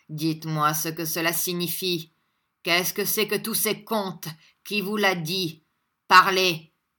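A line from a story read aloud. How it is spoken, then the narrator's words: Grumbling. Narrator (French): dit-il en grommelant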